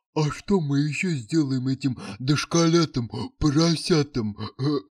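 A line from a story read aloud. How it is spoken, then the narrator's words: Nasty giggling question. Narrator (Russian): Противно хихикая, спросил Проныра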